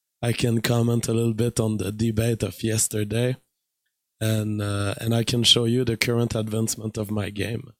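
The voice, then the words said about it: Weak, tired voice. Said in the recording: “Voice is still weak ... my voice is weak and I'm tired these days”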